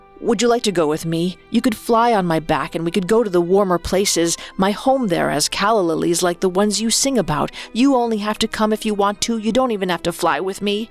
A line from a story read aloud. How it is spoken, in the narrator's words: he spat out